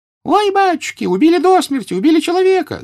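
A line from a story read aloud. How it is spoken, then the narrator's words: Woman's shrieking. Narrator (Russian): завизжала баба, вышедшая из соседних ворот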